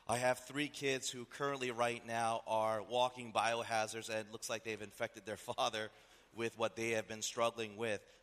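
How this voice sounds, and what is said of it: Slightly hoarse voice. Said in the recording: “my voice is a little bit hoarse.”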